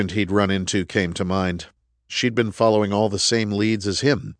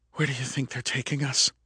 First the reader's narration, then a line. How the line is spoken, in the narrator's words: Anna whispered